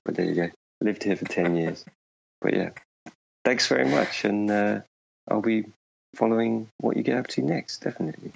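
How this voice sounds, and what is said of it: British accent with slight Finnish influence. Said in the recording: “I have a really strange accent now, because I think the Finnish rubs off on me a bit ... I have a slightly warped accent”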